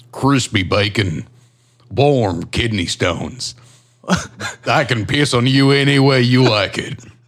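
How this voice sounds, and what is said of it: Deep imitation of another person's voice. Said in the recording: “the Trump impersonation ... that's just a deeper Trump”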